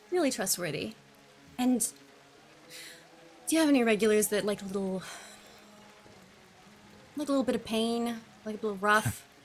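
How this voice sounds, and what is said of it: American accent. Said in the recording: “You've got a strange accent. You Yank?”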